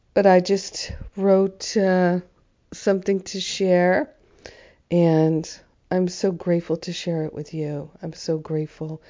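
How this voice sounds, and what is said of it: Hoarse, strained sick-sounding voice. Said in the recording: “my voice is challenged. I've been sick with the flu.”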